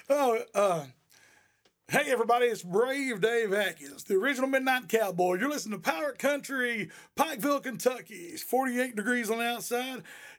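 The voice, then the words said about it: Radio DJ announcer voice. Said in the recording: “I work on my DJ voice, but I'm a little ragged today”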